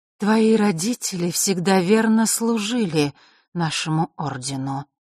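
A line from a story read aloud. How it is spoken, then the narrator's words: Sudden, unusually hollow voice. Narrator (Russian): вдруг начала Елена каким-то непривычно глухим голосом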